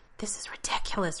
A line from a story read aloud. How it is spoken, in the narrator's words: Rodney says in a whisper